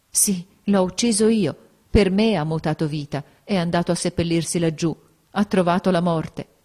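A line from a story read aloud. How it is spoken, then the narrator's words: Choked, dry-eyed admission. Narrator (Italian): con gli occhi aridi, con voce strozzata, ella riconobbe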